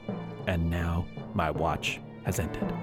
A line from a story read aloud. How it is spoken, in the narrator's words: put on a cape and muttered